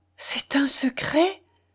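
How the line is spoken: Faint, lifeless voice. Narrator (French): répéta Madame de Rênal d'une voix éteinte

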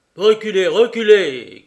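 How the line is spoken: Shouting. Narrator (French): cria le Kochevoy

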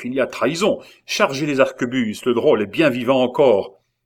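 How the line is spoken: Shouting. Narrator (French): cria le chef

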